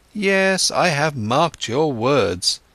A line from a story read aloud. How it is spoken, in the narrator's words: Siddhartha exclaimed